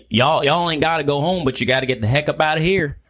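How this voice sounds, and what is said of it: Put-on country accent. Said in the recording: “I was telling all the kids to go home in like a country accent”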